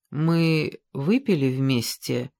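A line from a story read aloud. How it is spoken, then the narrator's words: Uncertain speech. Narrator (Russian): неуверенно сказала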